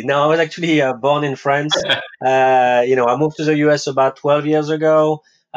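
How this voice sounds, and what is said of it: Non-New York foreign accent. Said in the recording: “you're not originally a New Yorker, I take it by your accent.”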